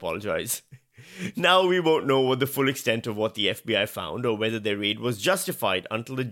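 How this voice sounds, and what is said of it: Usual voice. Nothing is said of it.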